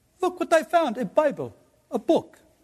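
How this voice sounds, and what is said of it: Put-on Israeli accent. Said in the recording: “I've been to Israel too many times to have that accent down pretty good.”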